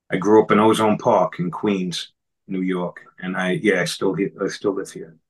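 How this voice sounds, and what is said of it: New York accent. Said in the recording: “I think I kind of knew you were from New York because your accent, New York ... everyone in New York talks like this”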